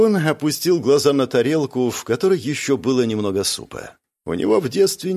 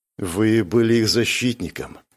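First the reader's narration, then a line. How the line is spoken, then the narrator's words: Quiet. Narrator (Russian): тихо сказал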